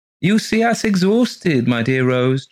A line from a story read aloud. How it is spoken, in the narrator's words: chirped Mr